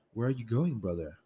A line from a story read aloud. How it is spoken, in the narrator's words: Selena asked